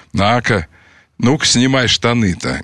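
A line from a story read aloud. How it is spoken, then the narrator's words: Calm. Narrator (Russian): говорил спокойно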